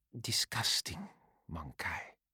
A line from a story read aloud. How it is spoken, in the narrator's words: she said softly